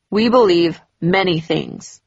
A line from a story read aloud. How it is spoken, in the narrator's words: he answered curtly